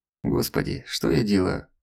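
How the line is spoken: Despairing groan. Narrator (Russian): Застонал от отчаяния Елисеев

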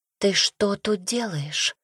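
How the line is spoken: Sister's whispered question. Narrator (Russian): шепотом спросила сестра

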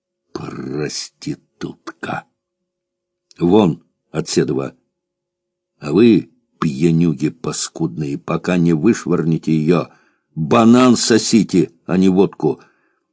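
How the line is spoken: Gloomy speech, mouth full. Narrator (Russian): торговка Клашка сказала мрачно, полным ртом

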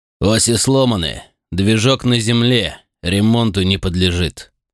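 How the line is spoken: Curt assessment. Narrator (Russian): оценил его состояние Сулинов и зло сплюнул

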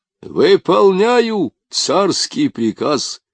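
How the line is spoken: Soldier shouting. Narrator (Russian): прокричал солдат

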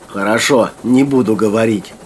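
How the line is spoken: Grumbling mutter. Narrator (Russian): буркнула Юлька

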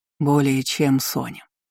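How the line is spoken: Quiet. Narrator (Russian): тихо ответил он

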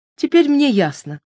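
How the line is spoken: Exclamation. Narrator (Russian): воскликнула

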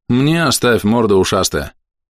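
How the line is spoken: Grumbling. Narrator (Russian): проворчал Верхим

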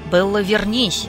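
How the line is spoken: Barking shout. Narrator (Russian): гаркнул Эдвард

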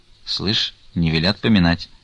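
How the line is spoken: Soft speech. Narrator (Russian): тихонько сказал Потап Максимыч

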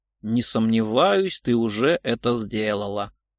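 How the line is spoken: Grumbling. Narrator (Russian): пробурчал Леонтьев

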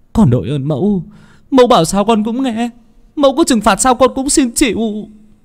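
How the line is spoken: Joyful tearful sobbing. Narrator (Vietnamese): Tùng mừng lắm, hai hàng nước mắt tuôn trào, nức nở

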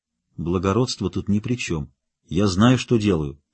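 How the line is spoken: Quiet reply. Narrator (Russian): так же тихо ответил Рот

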